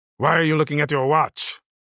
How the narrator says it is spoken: snapped Minister Chiang, interrupting the briefing

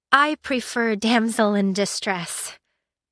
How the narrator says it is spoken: she murmured

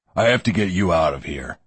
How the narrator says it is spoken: Lore growled

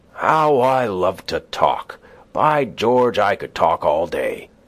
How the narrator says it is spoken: He would sometimes exclaim

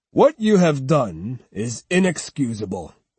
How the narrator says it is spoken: continued Terumasa in a sterner tone

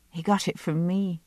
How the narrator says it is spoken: I said softly

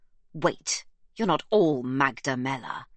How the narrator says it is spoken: he snaps

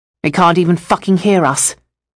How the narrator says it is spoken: the absurd snarled

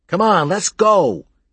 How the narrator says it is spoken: he called out

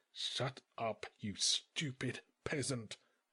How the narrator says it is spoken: replied the king through his teeth

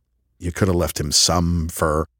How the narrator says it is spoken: I muttered to her

